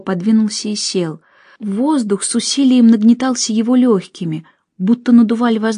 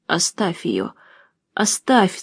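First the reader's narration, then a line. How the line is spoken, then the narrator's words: Breathless hoarse wheeze. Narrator (Russian): задыхаясь, прохрипел он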